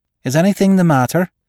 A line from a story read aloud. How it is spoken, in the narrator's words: she asked anxiously